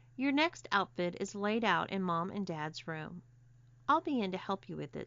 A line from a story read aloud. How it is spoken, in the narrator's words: said Robin